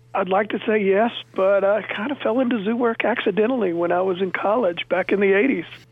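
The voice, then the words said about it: North Carolina Southern accent. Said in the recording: “I grew up in North Carolina, hence coming about the accent”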